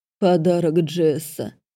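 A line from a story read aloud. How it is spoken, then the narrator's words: Mocking baby-talk. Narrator (Russian): просисюкал он, передразнивая меня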